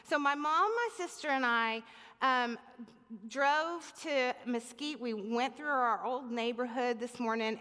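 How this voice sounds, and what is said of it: Speaker with a noticeable accent. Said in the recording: “I might have a little bit more of an accent today.”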